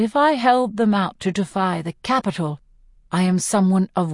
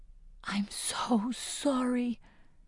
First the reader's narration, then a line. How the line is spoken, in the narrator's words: I whisper